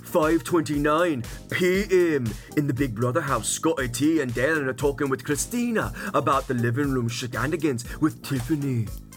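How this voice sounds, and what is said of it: Put-on British accent. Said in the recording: “my British accent”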